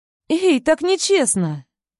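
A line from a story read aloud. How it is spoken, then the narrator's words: Indignant exclamation. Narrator (Russian): Возмущенно восклицаю я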